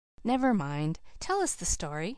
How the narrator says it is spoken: said the preacher himself, eagerly

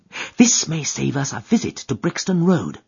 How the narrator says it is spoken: whispered Holmes

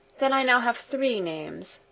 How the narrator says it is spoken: she added with a sigh

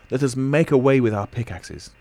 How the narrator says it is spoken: cried my uncle

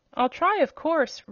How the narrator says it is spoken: replied the Wheeler eagerly

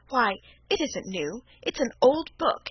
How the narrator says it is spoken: exclaimed Felicity

